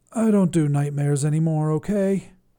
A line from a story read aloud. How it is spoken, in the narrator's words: Scabmeyer sighed